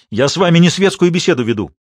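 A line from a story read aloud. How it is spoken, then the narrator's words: Barking. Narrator (Russian): рявкнул на него Годлиман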